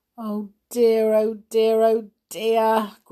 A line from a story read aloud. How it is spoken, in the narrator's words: groaned Binky at once